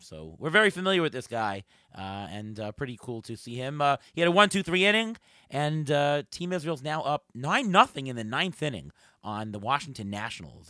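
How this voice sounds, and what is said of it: Hoarse voice. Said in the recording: “I'm a little bit hoarse”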